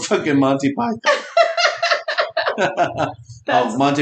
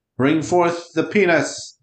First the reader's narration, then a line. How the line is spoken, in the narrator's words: yelled